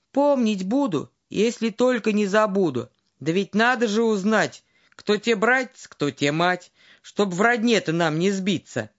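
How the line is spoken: Plain. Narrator (Russian): говорит ему царица

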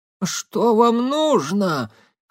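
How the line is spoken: Hoarse question. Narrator (Russian): хрипло спросила Саэлин

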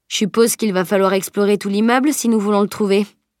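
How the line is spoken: Plain. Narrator (French): dit-il

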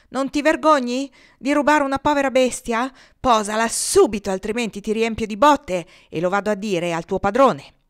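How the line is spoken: Repeated shouting. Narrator (Italian): Più e più volte gridò

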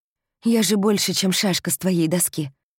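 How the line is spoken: Trembling voice. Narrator (Russian): говорит дрожащим голосом

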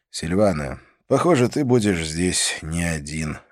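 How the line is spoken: Sighing conclusion. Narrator (Russian): закончил я, вздохнув

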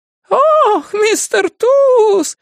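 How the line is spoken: Shouted in falsetto. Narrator (Russian): фальцетом прокричал Гек Дроуган

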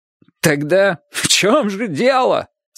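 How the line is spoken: Bitter mocking half-laugh. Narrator (Russian): спросил артист, не то горько засмеявшись, не то насмешничая над горьким смехом

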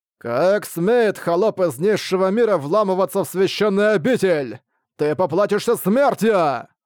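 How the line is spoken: Angry shout. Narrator (Russian): гневно взглянул на Ван Линя и крикнул

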